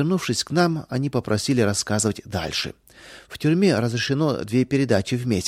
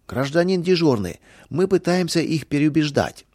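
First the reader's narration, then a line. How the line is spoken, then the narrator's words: Prisoners shouting over each other. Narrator (Russian): заключенные наперебой закричали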